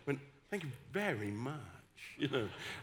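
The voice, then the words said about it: Posh Oxford English accent. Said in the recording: “Instead of putting on my West Country accent where I'm from, I put on my best Oxford accent.”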